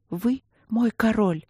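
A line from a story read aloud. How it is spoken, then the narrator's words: Quiet timid reply. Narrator (Russian): тихо и робко ответила она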